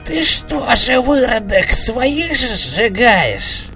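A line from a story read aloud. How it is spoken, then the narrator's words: Creaky voice. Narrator (Russian): Проскрипел кто-то рядом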